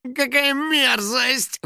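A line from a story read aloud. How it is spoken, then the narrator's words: House spirit sighing. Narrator (Russian): вздохнул домовой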